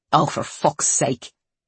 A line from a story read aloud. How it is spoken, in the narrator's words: muttered